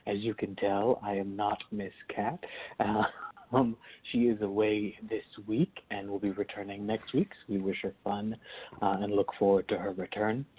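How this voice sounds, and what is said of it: Scratchy, soft, unwell voice. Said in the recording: “My voice is a little bit off this week. I'm coming over or getting over something from the past week or so ... my voice is a little bit off ... this kind of weird, scratchy, soft voice”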